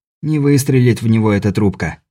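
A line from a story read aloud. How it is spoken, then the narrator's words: Muttered. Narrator (Russian): пробормотал Беляев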